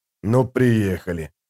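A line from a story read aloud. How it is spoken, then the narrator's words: Soldier's grumble. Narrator (Russian): пробурчал кто-то из солдат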